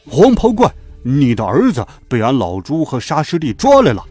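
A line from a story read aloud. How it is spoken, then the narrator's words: Stern loud shout. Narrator (Chinese): 八戒立在云端，厉声高叫道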